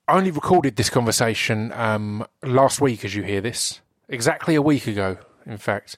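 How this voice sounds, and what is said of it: Slightly hoarse, sore-throated voice. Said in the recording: “I've got a bit of a sore throat.”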